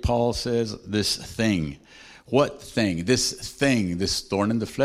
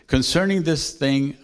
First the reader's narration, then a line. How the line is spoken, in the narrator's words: I pleaded with the Lord